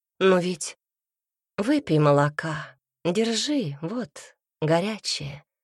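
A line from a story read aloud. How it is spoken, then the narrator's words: Said gently. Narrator (Russian): произнесла Шиана ласково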